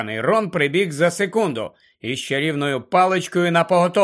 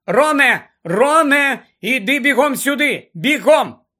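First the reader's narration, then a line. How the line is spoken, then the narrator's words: Shouted. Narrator (Ukrainian): крикнула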